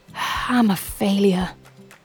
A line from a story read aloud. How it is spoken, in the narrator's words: whispers quietly to himself